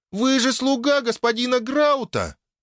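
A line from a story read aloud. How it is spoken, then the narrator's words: Squeaky little girl. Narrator (Russian): пискнула в толпе Тиа, та самая малявка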